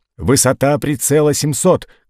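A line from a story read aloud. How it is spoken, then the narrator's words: Shouted command. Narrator (Russian): крикнул он канонирам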